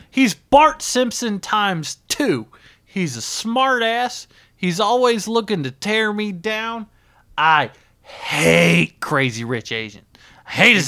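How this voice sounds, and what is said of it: Angry voice with Southern accent. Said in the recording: “he's starting to slip into that southern accent that he only gets when he gets angry”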